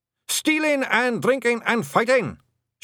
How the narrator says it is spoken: shouted the blue men cheerfully

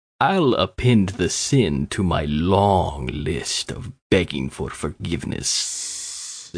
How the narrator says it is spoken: the Sikh said, the end of his word blending with the hiss of the cobra into a long hiss

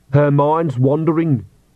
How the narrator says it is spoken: said Agnes loudly

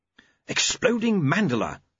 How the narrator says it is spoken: said Q happily

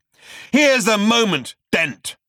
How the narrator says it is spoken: shrieked the voice, now reaching a feverish pitch of hatred

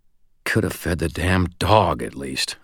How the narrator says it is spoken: I muttered

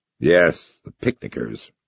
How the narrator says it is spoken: grumbled

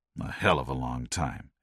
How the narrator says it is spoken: Ed murmured, frowning

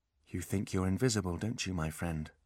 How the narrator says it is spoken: Holly whispered

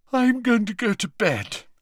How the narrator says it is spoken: yawned Ginny

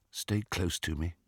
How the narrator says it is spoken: he said quietly

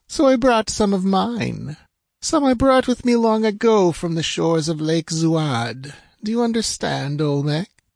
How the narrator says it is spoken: purred the princess

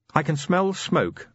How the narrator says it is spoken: Angua announced

